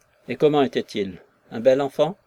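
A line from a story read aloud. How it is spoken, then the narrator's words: Trembling voice. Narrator (French): demanda Nekhludov d'une voix tremblante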